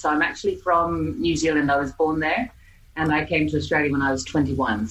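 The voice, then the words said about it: Mixed Australian and New Zealand accent. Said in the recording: “I have an Australian accent, but I also have a New Zealand accent ... Aussie Kiwi English accent”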